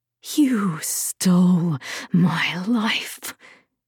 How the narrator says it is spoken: Rufina hissed

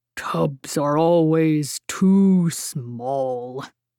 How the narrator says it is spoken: Baird grumbled

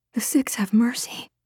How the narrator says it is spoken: she whispered

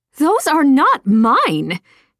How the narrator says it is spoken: she shouted

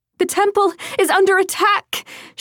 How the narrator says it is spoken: she screamed

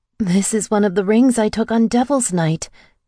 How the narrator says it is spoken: I said, my voice shaking

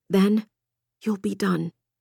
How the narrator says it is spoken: she muttered

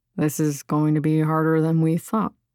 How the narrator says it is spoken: Gwen muttering

